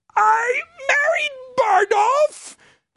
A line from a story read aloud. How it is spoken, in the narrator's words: Caius croaks again